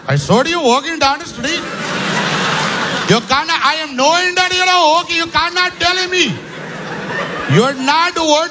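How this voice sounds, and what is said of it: Mock Indian accent, sung. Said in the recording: “That same song with the Indian accent.”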